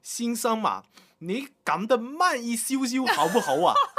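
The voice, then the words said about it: Cantonese-accented Mandarin. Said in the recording (Chinese): “应该是香港的移民，就很广普的跟我讲”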